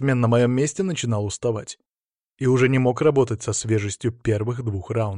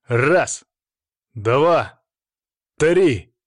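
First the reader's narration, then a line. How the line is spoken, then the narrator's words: Loud counting. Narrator (Russian): начал громко отсчитывать рефери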